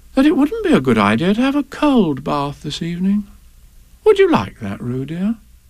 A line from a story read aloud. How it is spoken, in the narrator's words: said Kanga in a thoughtful voice